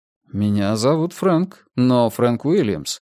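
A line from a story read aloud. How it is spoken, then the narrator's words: Calm steady objection. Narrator (Russian): возразил я, сам удивившись тому, насколько спокойно и бестрепетно прозвучал мой голос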